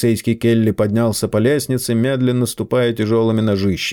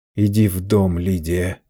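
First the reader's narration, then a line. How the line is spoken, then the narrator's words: Groaning plea. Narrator (Russian): простонал Чарли жене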